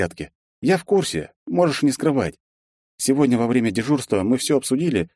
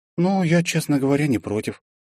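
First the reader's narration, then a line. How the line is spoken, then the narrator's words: Heavy sigh. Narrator (Russian): тяжело вздохнула Лиза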